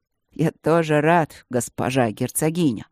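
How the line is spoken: Solemn. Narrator (Russian): сказал он торжественно

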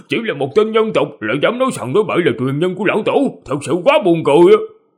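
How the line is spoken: Mocking. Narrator (Vietnamese): Một người trong đó còn không nhịn được giễu cợt nói

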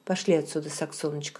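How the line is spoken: Plain. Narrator (Russian): сказал он

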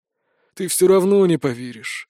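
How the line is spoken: Sad, smiling. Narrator (Russian): грустно улыбнулся блондин

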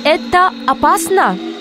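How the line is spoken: Muffled behind mask. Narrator (Russian): Из-за маски его голос звучал глухо

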